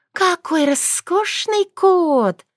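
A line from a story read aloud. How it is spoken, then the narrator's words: Approving. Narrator (Russian): одобрила Сшивил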